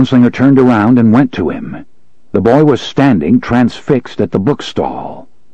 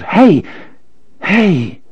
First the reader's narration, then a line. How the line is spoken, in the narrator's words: The boy cried out